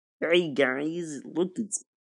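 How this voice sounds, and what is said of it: Kermit the Frog voice impression. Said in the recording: “You guys want to hear my Kermit impression?”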